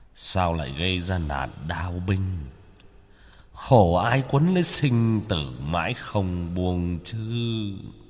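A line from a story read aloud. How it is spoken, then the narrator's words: Man muttering. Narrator (Vietnamese): Ông ta ... lẩm bẩm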